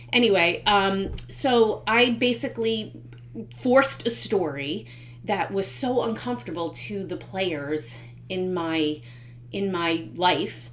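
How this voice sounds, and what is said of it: Congested, unwell-sounding voice. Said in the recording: “I've had a cold for I think forever and ever and ever. ... sorry about my voice.”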